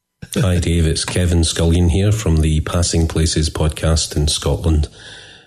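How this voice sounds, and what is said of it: Scottish accent. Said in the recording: “I get giddy when I hear accents from across the pond.”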